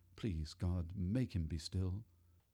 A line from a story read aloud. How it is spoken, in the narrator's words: I muttered